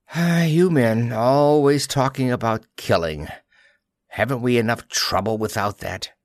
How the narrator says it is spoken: Ma Kirk said wearily

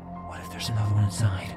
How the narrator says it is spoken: I whispered

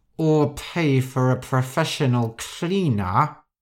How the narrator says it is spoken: Rosa said through gritted teeth

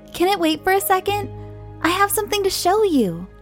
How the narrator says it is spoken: said very eagerly

